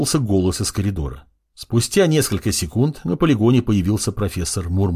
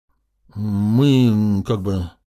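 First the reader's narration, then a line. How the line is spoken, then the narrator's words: Indistinct mumbling. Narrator (Russian): начал невнятно мямлить Юринай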